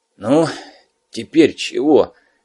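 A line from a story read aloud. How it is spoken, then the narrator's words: Gloomy question. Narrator (Russian): мрачно спросил Гнат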